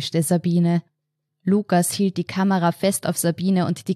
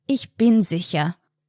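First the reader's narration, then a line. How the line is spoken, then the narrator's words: Firm voice. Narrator (German): sagte Sabine mit fester Stimme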